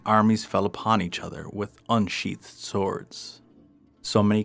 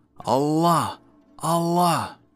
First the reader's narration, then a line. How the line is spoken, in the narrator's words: The mice boiling with rage, shouting